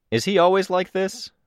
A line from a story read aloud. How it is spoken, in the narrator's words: asked, raising my voice a bit